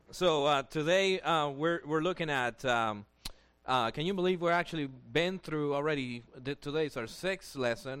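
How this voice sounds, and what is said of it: Heavy accent. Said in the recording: “I already have a heavy accent”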